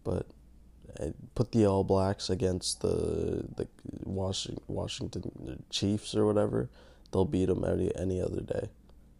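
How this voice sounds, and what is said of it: Raspy just-woke-up voice. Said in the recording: “I just woke up, if you couldn't tell. That might be why my voice is so raspy.”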